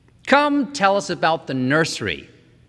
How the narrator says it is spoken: said George Hadley

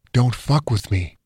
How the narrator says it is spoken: Perry whispered, smiling all the while

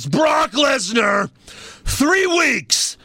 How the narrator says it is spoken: he yells

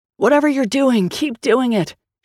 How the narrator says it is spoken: shouted Grace from underneath the demon

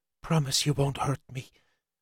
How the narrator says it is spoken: She whispered

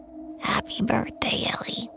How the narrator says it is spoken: her raspy voice echoed

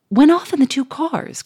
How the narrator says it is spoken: cried the millionaire, in blank stupefaction

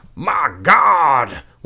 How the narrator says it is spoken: shrieked

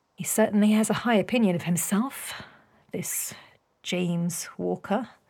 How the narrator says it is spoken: Beatrix murmured

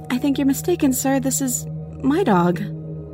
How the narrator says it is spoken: So I just say nervously

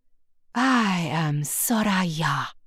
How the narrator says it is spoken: the genie purrs

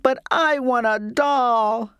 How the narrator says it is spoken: I sobbed

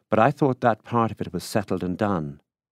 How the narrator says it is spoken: said impatiently

